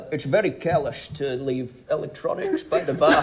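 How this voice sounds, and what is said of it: Scottish accent impression. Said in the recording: “Scottish ... Sean Connery ... that was a really good accent ... Detailed as well ... it was from a PSA that Sean Connery”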